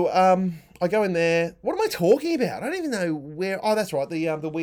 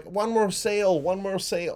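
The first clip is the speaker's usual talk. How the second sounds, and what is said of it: Poor impression of Simpsons' Gil. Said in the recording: “Remember Gil? Gil was the character who was like ... That's a terrible accent I'm doing right now.”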